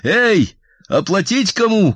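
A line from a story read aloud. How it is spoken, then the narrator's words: Shouted. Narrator (Russian): крикнул я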